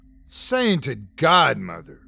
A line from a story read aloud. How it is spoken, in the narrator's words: cried Smith, breaking the silence